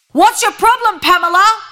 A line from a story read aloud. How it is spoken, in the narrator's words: yell